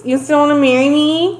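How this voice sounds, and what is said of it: Nasal, whiny imitated woman's voice. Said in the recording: “That's what her voice sounds like. ... It's fucking awful. All in her nose. ... She needs some fucking Afrin. She's the one who needs some nasal spray.”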